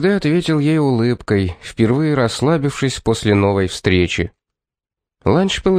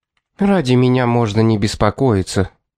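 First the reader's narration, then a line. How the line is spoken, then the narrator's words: Gloomy tone. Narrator (Russian): мрачным тоном проговорила Трифена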